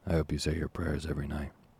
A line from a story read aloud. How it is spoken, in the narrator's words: said another gentleman in a gruff voice